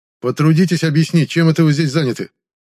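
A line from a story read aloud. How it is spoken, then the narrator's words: Barked command. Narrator (Russian): Рявкнул я командным тоном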